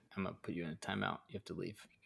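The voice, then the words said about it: Stern dad voice. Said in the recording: “That's the dad voice”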